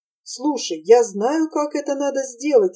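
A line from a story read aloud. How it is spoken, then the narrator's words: Sudden cheerful shout. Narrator (Russian): весело закричала вдруг Гретель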